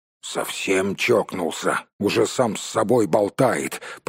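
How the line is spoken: Grumbling. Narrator (Russian): пробурчал Том

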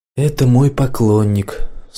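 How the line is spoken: Tired voice. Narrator (Russian): сказала устало

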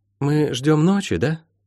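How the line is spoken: Quiet question. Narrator (Russian): тихонько спросила Молли

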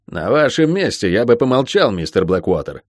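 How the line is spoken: Cold announcement. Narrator (Russian): холодно объявил лорд

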